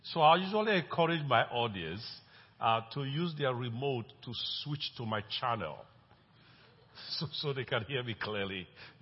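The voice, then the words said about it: Speaks with a noticeable accent. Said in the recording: “you will notice that I have an accent. But I hope that's not the first time you're hearing this kind of accent.”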